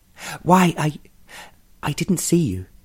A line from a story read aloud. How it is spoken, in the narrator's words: she stammered